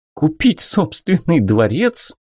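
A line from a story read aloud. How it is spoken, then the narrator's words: Loud laughter. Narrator (Russian): Арада расхохоталась в голос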